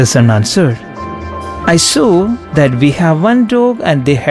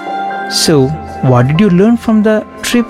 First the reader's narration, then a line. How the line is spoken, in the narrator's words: asked the father